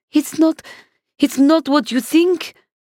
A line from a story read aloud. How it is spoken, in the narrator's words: she stammered